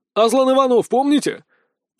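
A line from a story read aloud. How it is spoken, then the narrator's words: Young man shouting amid gunfire. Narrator (Russian): Парень кричал, а где-то рядом с ним звучали выстрелы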